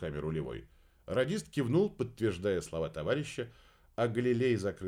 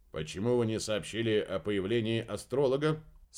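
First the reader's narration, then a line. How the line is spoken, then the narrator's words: Dry inquiry. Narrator (Russian): сухо осведомился Дюкри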